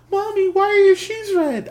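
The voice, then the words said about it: Little girl voice. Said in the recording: “my little girl impression”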